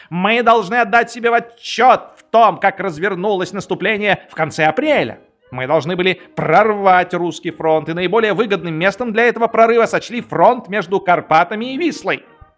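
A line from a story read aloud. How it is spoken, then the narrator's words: Shouting out a window. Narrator (Russian): кричал подпоручик Дуб в окно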